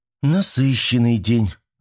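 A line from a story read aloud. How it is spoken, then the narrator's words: Sigh. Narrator (Russian): вздохнула Мичика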